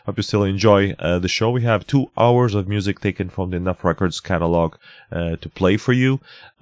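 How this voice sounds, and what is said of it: Deep, sore-throated voice. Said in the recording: “A bit of a sore throat, so excuse me for my deep radio voice”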